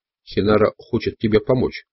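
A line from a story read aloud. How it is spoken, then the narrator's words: Confiding tone. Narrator (Russian): сказал Дон Хуан доверительным тоном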